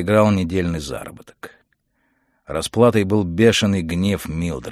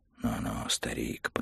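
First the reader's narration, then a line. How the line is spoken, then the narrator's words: Whispered. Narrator (Russian): прошептал Монтек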